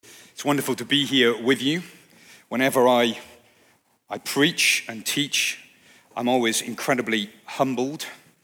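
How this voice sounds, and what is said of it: Non-American, likely British accent. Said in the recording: “you can tell from my accent, I'm probably not a Grand Rapidian... I've come across the pond”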